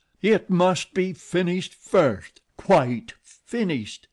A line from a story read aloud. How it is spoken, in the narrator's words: he said aloud at the top of his voice